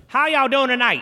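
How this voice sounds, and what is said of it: Imitates another person's voice. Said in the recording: “This is my impression of David Copperfield's show”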